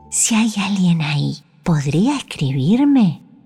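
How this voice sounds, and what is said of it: Soft whisper. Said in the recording (Spanish): “Susurró bajito.”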